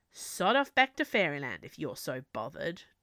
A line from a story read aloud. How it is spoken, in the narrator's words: Jack grunted